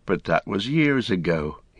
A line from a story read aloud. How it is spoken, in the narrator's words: he sighed